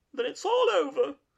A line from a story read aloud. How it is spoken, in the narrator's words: sobbed the Toad, crying into the sofa cushions